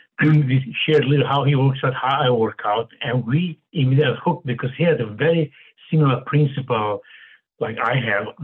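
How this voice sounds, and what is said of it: Romanian accent. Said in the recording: “he heard my accent talking ... where are you from? From Romania.”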